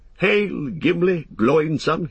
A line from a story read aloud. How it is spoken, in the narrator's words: he cried